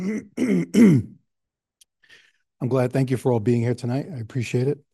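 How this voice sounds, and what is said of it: Voice sounds affected, unwell. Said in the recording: “Excuse my voice, allergies.”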